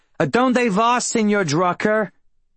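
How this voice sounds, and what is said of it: Heavy New Jersey accent. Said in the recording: “calling out to me in her heavy New Jersey accent”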